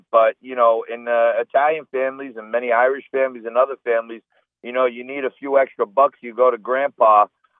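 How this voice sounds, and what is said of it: Italian-American New York accent. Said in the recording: “I'm of Italian-American descent from my accent”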